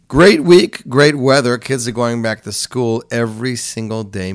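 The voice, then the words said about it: Unusually deep, sick-sounding voice. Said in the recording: “I'm a little bit under the weather, as you can hear... My voice is extremely deep.”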